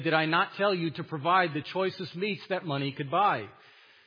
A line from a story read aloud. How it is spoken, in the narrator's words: Xanthus angrily demanded of Aesop, he said